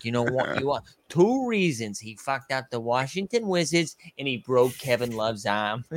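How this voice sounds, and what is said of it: Boston accent. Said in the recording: “I've never heard a Boston accent say Wizards. That was amazing.”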